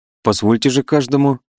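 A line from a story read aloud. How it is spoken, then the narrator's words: Sharp. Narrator (Russian): резко заговорил Волынцев, и глаза его загорелись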